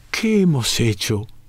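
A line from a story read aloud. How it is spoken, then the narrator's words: Exclaiming. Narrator (Spanish): exclamó Celestino Duclos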